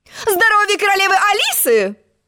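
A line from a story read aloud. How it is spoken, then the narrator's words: Squeal. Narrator (Russian): взвизгнула она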